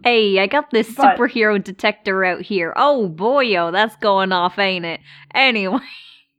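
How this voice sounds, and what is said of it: Put-on accent that shifts wildly. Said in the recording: “My accent wildly changed between those two sentences.”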